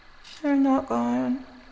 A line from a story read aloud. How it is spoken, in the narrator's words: she said sadly